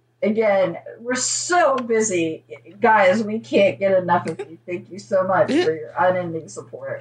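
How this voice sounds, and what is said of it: Heavily sarcastic delivery. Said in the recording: “If it sounds like I'm being sarcastic, it's because I'm laying it on real thick.”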